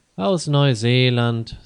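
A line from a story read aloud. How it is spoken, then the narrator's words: Tired. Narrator (German): sagte Johann müde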